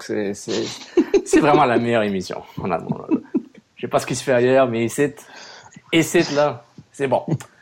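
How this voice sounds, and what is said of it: Poor put-on Québécois French accent. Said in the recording (French): “C'est toujours drôle quand tu parles en québécois. ... Toujours avec un accent pourri.”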